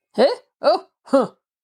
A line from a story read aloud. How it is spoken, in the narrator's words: grunted the man as before